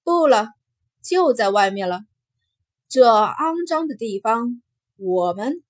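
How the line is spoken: Cold. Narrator (Chinese): 金红冷冷开口

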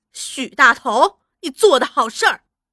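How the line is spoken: Angry reproach. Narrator (Chinese): 怒气冲冲的责问

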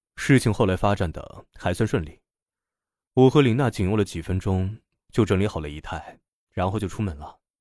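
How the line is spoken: Sighing. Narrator (Chinese): 杰克叹了口气，说道

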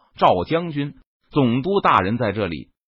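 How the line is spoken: Guards shouting. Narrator (Chinese): 那条船上的标营卫士也向他喊道

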